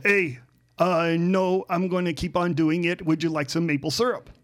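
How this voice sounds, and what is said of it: Put-on Canadian accent. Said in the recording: “they'll say in their Canadian accents”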